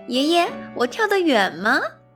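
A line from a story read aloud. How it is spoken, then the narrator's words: Laughing while jumping, child. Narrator (Chinese): 飞格边跳 哈哈直笑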